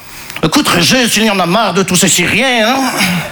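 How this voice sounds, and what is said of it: Put-on Belgian accent. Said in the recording (French): “là, je prends l'accent belge parce que je ne sais pas faire l'accent chinois”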